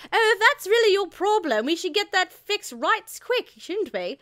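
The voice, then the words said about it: Put-on accent voicing a character. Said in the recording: “I should drop the accent now. Sorry. I lasted for a minute. I couldn't keep it up anymore”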